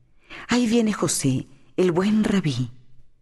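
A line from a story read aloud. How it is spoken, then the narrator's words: Woman exclaiming. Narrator (Spanish): Una mujer exclamó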